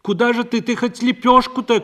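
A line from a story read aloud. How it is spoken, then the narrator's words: Calling after. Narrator (Russian): крикнула ей вслед Парашка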